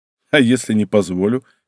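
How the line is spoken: Smirking snort. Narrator (Russian): хмыкнул я

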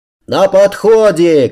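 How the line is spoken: Shout. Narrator (Russian): крикнул

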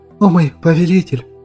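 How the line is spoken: Trembling voice. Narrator (Russian): дрожащим голосом промолвила Глэдис

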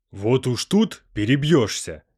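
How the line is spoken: Growling. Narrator (Russian): Зарычал Савин

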